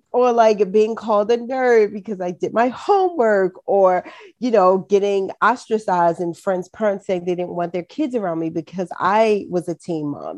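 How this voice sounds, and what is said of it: Baltimore City accent. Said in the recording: “I truly have a Baltimore. I still get teased about my Baltimore City accent”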